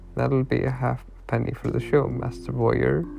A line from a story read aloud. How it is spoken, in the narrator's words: he laughed